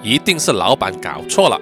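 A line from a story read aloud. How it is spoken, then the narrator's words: Soldier, cold reply. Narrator (Chinese): 阿兵哥呢就冷冷的回答说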